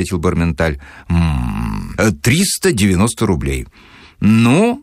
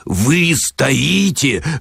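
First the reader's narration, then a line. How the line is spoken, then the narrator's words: Growling. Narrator (Russian): рычал Филипп Филиппович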